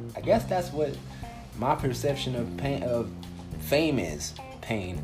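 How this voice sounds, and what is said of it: Usual voice. Nothing is said of it.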